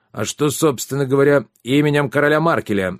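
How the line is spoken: Barked, officer. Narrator (Russian): рявкнул офицер

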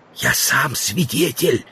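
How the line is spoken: Whisper. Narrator (Russian): сказал Стендаль, тоже переходя на шепот

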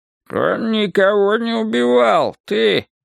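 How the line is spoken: Old man grumbling. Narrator (Russian): проворчал сморщенный от старости Уильям Чарльз

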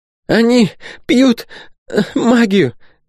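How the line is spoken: Hoarse rasp. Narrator (Russian): Хрипела Ирина

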